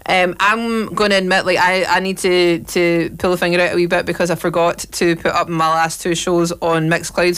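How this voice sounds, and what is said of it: Scottish accent. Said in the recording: “Even if I'm saying it with a pure Scottish accent”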